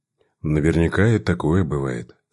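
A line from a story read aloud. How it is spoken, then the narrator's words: Calm answer. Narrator (Russian): спокойно ответил писатель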